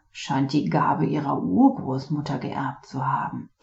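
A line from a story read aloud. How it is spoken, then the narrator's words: Teacher murmuring. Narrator (German): murmelte der Lehrer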